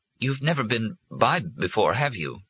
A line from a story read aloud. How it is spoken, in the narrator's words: said, now rattled and stammering